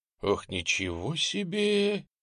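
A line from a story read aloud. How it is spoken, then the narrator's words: Emotional exhale. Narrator (Russian): выдохнул Немченко, не сдержав эмоций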